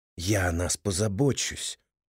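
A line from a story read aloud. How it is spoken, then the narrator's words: Whisper. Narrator (Russian): прошептал он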